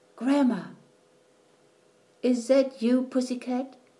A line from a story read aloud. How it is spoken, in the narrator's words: she answered in a sleepy voice